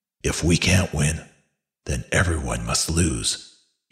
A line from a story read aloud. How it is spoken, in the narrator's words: he muttered